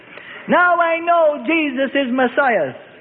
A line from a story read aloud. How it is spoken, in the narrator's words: he cried, caring not who hurt him